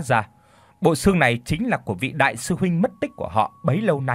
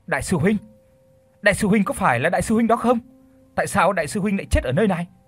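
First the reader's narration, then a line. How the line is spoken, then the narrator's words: Sudden scream. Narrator (Vietnamese): cậu ta bỗng thét lên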